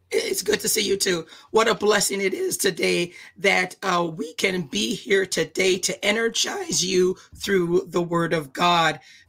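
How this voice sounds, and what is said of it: Voice sounds unusual, off. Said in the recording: “my voice sounds funny”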